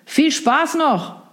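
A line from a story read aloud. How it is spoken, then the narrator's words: Call drowned by waves. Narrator (German): rief der noch, bevor die laut brechenden Wellen jedes weitere Wort verschluckten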